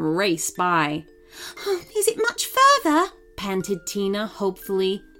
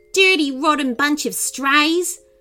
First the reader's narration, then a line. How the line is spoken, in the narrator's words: Brittany growled